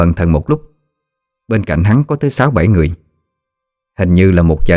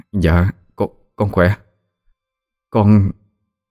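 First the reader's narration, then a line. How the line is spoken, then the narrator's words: Stammering. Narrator (Vietnamese): Vũ lắp bắp rồi nói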